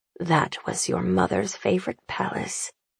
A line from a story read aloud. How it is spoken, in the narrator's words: Annabelle mutters at his side, forgetting herself